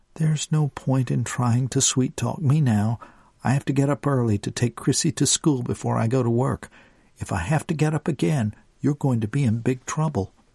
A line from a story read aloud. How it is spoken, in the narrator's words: Destiny sighed